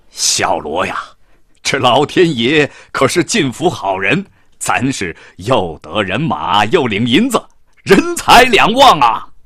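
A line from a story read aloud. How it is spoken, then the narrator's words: Laughing. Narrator (Chinese): 冯统带笑着对孝罗说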